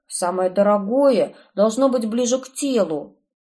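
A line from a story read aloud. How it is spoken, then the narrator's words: Snapping back. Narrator (Russian): огрызнулся Ирвин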